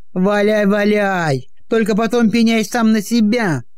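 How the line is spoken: Shouted after someone. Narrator (Russian): выкрикнул вслед ему Букин

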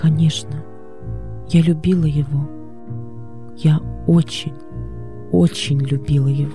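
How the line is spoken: Tender unhesitating reply. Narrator (Russian): Не колеблясь, она нежно ответила

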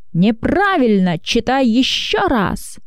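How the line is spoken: Teacher shouting. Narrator (Russian): закричал учитель

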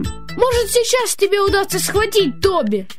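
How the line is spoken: Shouted. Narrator (Russian): крикнул Джим

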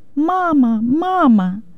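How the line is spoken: Shouting. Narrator (Russian): кричала я

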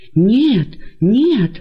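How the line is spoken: Many voices exclaiming. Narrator (Russian): воскликнули многие из них

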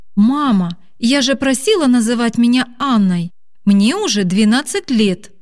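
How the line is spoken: Irritated exclamation. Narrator (Russian): Раздраженно воскликнула Аня

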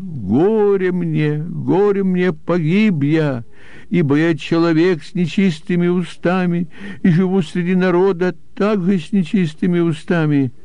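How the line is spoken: Anguished exclamation. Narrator (Russian): он увидел себя в присутствии Господа грешником и воскликнул

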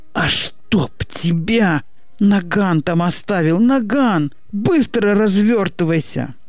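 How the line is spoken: Pained howl. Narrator (Russian): Будто от зубной боли взвыл Васька

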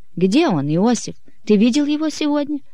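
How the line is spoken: Anxious question. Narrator (Russian): Мария взволнованно спросила

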